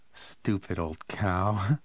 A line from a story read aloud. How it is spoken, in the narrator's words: he said and giggled